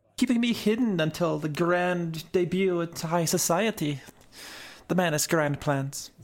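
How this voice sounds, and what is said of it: Put-on fancy accent. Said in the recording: “what a fabulous accent you have”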